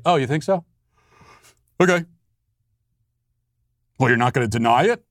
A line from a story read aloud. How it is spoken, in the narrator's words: you respond with a yawn and say